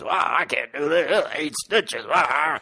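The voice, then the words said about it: Rural townsfolk character voice. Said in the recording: “that your rural townsfolk impression ... That's my rural townsfolk doctor.”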